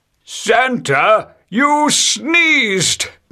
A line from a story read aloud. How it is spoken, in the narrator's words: they all shouted together